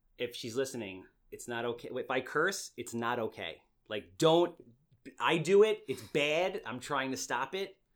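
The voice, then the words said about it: Heavy accent. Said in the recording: “oh wow, that was a heavy accent. You hear that? ... I have a heavy accent.”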